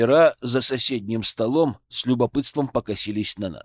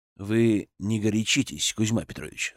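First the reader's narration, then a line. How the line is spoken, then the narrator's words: Calm request. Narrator (Russian): спокойно попросил я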